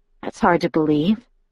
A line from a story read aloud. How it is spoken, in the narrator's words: I murmured